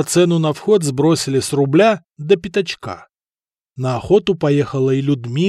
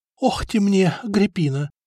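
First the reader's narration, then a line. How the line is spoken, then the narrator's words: Whisper. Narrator (Russian): шептала лучшей подруге и заодно ненавистной сопернице Эльфрида, Лотарова жена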